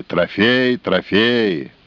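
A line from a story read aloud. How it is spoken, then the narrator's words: Shouting crowd. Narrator (Russian): Кричали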